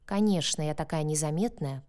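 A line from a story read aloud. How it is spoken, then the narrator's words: Grumbling. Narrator (Russian): проворчала я в ответ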